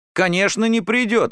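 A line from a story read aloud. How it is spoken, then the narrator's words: Exclamation. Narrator (Russian): воскликнул Ромка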